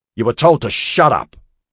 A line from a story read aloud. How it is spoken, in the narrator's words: Rob shouted above the noise